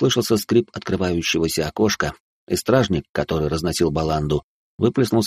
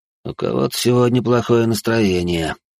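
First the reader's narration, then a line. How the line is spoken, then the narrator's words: Muttered under breath. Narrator (Russian): буркнул он себе под нос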